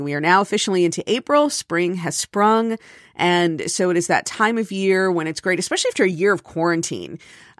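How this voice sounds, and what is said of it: Slightly stuffy voice. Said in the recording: “I sound a little stuffy this morning”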